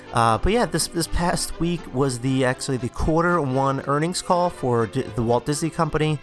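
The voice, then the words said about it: Congested, under-the-weather voice. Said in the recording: “I'm feeling a bit quite under the weather this morning as I record, so you guys will probably hear it in my voice,... if you hear me sniffling”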